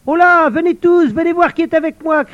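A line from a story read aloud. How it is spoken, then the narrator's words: Shouted. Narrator (French): cria Ratafia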